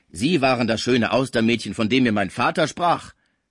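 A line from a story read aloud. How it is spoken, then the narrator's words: Calling out. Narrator (German): rief Gaudissart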